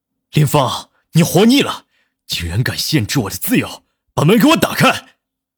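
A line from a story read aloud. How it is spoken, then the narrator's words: Angry roar. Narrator (Chinese): 南离川 吼道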